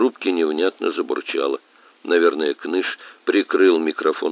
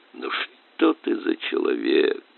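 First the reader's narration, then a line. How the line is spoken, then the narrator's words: Groaning. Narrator (Russian): простонал Кныш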